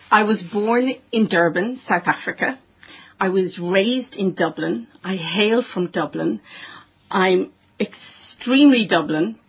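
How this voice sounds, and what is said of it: Strong Irish accent. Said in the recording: “a very strong Irish accent”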